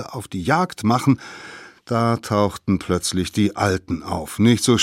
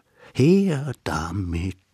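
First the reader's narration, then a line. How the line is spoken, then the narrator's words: Quiet group cheering. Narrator (German): jubelten sie leise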